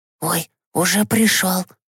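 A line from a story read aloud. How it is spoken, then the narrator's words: Whispering. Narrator (Russian): зашептала Катюша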